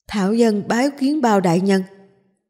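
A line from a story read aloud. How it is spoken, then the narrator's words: Old man's loud cry. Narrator (Vietnamese): Lão nhân cao giọng kêu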